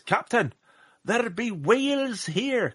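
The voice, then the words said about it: Poor put-on Scottish accent. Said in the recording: “that was a terrible Scottish accent”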